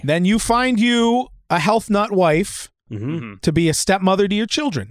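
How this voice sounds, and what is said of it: Put-on New York accent. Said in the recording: “I think I started doing a New York accent there for a second.”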